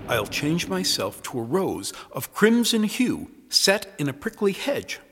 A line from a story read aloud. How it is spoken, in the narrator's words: Miranda said